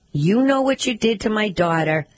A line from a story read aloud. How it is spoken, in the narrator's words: She yelled that